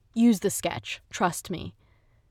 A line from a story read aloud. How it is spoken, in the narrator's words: She just responded sharply